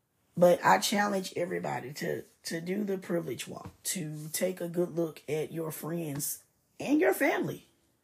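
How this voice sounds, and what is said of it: Rough, unwell-sounding voice. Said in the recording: “excuse my voice. It's the weather”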